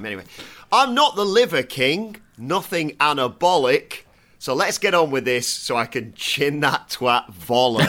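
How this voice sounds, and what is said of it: Northern English accent. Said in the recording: “your northern accent”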